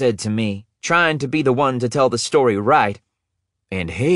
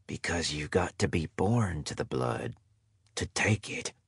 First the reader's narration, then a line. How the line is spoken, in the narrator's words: Grandpa said, his voice nearly at a whisper